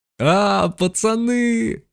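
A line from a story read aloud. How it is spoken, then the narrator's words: Yelling boy. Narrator (Russian): заорал Мишка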